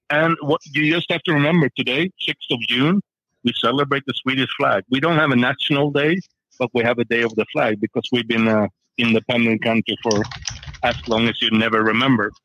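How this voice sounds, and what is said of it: Swedish-accented English. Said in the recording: “You have a beautiful accent.”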